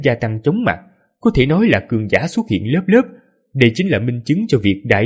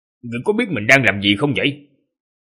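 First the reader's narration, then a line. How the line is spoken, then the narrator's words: Stern question. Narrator (Vietnamese): Vị giáo sư nghiêm nghị hỏi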